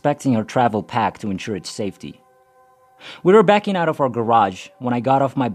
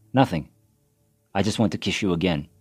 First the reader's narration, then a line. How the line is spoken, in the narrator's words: I said